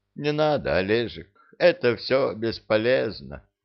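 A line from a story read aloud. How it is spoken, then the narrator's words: Deliberately sad, after pause. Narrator (Russian): после паузы ответила нарочито печальным голосом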